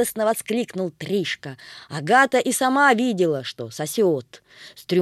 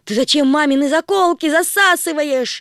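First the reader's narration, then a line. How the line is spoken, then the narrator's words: Shouted. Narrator (Russian): закричала Агата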